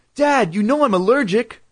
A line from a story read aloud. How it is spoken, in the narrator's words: I cried